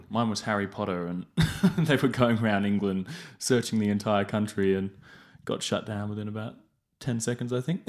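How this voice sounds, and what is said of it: English accent. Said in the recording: “detect an accent? ... Yeah, so I grew up in England. ... So it comes out when I'm a bit more official.”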